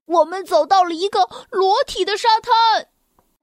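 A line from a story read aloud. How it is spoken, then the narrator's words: Snail shouting. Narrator (Chinese): 其中的一只蜗牛喊道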